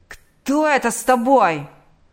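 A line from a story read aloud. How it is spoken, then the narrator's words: Yell. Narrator (Russian): заорал он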